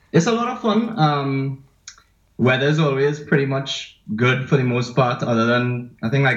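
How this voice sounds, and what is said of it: Trinidadian accent. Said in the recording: “all the way from Trinidad and Tobago ... he's got an awesome accent”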